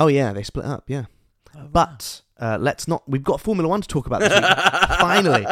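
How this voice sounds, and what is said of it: Usual voice. Nothing is said of it.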